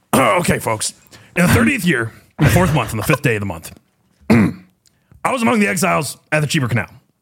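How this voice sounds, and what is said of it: Imitates another person's voice. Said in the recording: “To do a Ezekiel impression in Alex Jones' voice ... My Alex Jones impression's terrible today.”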